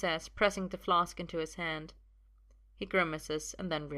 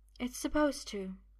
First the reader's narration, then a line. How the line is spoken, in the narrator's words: says in that same quiet voice